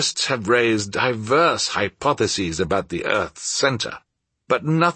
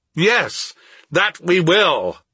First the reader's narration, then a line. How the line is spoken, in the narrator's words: I exclaimed, carried away by his enthusiasm